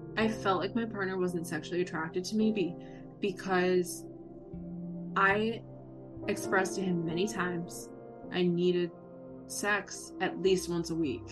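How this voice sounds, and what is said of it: Emotional voice. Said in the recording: “I'm getting emotional.”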